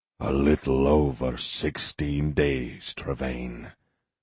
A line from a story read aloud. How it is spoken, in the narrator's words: he growled into the chill Highland night